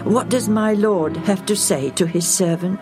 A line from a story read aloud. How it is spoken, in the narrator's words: said